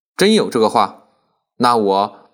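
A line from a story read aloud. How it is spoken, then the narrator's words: Excited, smug laughing. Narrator (Chinese): 洪才 很兴奋，得意的 笑道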